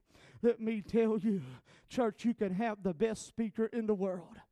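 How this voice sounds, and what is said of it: American Southern accent. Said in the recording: “my southern dialect. We talk a little different down south ... sometimes I have trouble hearing, understanding that southern dialect”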